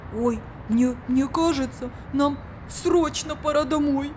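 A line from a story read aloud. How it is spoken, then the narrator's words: Frightened. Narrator (Russian): испуганно сказал Биби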